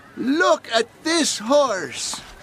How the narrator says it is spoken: he shouts

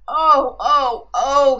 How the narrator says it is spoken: he groaned

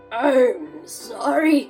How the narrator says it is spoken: he spluttered

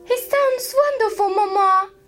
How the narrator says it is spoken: cried Lydia, the youngest and noisiest of the sisters

